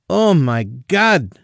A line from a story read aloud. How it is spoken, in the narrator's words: she exclaimed